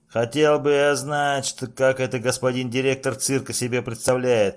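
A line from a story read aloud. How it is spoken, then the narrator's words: Muttered under breath. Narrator (Russian): пробурчал он под нос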